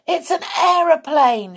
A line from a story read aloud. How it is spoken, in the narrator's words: shouted Peter